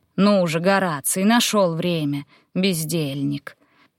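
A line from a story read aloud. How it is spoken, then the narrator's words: Deep velvety scolding. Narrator (Russian): Пожурил Публий питомца глубоким бархатным голосом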